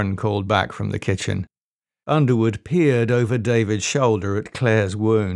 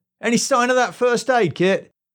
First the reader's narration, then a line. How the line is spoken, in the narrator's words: called out